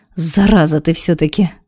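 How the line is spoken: Loud sigh. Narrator (Russian): шумно вздохнула Галка

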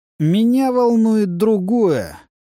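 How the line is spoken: Lazy drawl. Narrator (Russian): лениво протянул Луис

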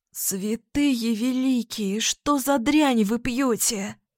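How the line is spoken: Hoarse after coughing. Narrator (Russian): прохрипела, откашлившись, Тиона

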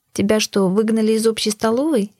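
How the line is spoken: Giggling reply. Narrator (Russian): хихикнула в ответ

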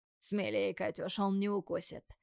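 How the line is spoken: Hoarse, urging. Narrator (Russian): Тим подталкивает охрипшим голосом

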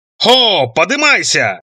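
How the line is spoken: Shout again. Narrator (Russian): снова заорал Роланд

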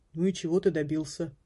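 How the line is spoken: Gloomy question. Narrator (Russian): мрачно спросил первый колпак

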